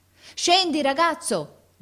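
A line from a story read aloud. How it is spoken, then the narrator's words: Officer shouting. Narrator (Italian): gridò l'ufficiale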